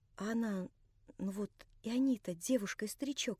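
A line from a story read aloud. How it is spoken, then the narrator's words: Whispering. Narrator (Russian): шептала она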